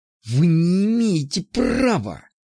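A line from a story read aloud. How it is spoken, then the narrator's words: Angry hiss. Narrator (Russian): злобно прошипел я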